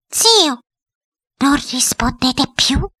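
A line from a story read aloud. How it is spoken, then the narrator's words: Insinuating voice. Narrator (Italian): disse ancora la direttrice con voce insinuante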